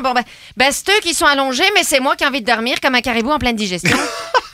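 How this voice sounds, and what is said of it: Loud put-on Québécois accent. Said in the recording (French): “mon propre accent me fait sursauter tellement c'est un accent insupportable ... tu peux difficilement parler doucement en québécois ... parler avec l'accent québécois”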